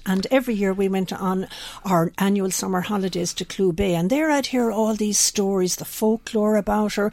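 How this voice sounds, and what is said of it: West of Ireland accent. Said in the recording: “I'm from the west of Ireland. You perhaps know that from my accent.”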